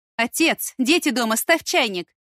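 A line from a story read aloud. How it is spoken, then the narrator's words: Shouted over shoulder. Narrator (Russian): крикнула мужу через плечо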